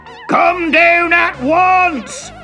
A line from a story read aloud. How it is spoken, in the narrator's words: he shouted at Timothy